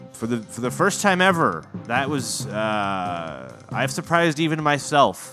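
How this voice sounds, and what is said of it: Usual voice. Nothing is said of it.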